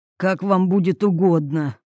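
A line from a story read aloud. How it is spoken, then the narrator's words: Grumbled. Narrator (Russian): буркнул Юрий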